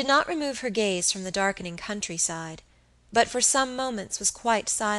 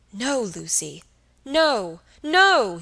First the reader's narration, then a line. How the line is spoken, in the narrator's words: he cried vehemently